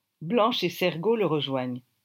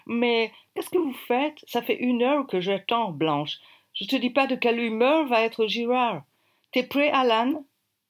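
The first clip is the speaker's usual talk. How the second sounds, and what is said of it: Attempted heavy English accent. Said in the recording (French): “accent anglais à couper au couteau ... Je n'arrive pas à faire l'accent anglais, je vais essayer.”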